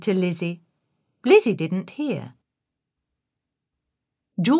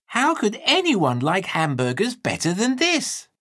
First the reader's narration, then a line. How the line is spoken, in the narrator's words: called out loud